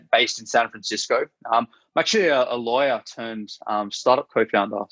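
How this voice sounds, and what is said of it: Australian accent. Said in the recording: “I'm Australian originally, as you can hear from my accent”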